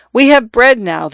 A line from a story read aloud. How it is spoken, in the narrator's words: they cried